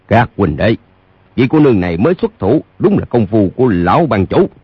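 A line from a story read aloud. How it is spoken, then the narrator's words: Raised voice. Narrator (Vietnamese): Lỗ Hữu Cước cao giọng nói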